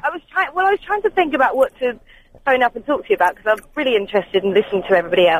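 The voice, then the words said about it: Posh-sounding English accent. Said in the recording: “you sound quite posh ... Maybe this is my phone voice. Maybe I'm being a bit posh because I'm on the phone.”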